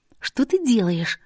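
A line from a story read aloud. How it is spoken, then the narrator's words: Squeak. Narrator (Russian): пискнула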